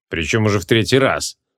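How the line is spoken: Snorting. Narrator (Russian): фыркнул креол

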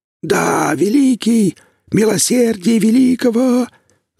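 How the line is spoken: Submissive dwarf's wheeze. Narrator (Russian): захрипел покорный карлик

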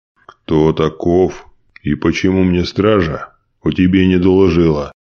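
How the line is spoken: Stern bass voice. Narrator (Russian): суровым басом спросил он

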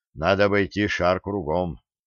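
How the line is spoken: Calm. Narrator (Russian): он спокойно сказал

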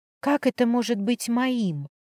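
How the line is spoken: Whispered. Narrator (Russian): прошептала

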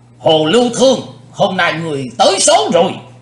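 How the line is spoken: Loud shout. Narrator (Vietnamese): Lão cục tài hét lớn

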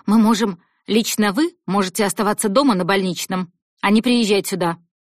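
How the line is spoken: Plain. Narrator (Russian): сказала шеф

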